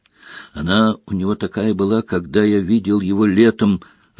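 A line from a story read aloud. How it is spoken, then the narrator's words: Whispering in ear. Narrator (Russian): зашептал Гарри на ухо Гермионе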